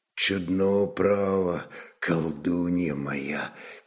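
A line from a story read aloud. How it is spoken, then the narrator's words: Quiet speech. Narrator (Russian): тихо проговорил Рарак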